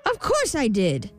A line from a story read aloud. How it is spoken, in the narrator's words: snapped the imp